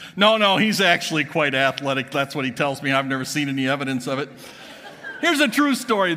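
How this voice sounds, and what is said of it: Usual voice. Nothing is said of it.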